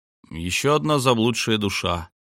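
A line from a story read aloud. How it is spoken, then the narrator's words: Mumble. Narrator (Russian): пробормотал я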